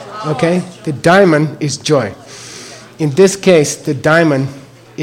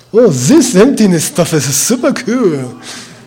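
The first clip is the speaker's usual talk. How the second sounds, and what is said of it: Put-on German accent. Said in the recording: “my German person imitation.”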